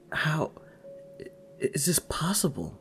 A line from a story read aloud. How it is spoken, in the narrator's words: Neville stammers